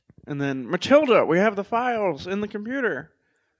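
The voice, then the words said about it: Imitates another person's voice. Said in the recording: “My bad Owen Wilson impression.”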